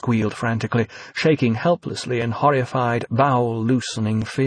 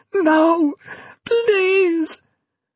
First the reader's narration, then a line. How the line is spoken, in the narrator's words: plead, shriek